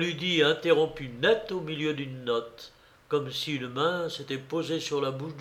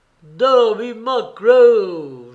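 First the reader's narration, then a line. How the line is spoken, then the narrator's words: Moaning voice. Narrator (French): gémissait la voix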